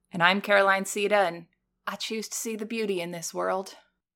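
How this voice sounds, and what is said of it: Put-on accent. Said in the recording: “should we do the whole episode in accents like this? ... You can lose the accent.”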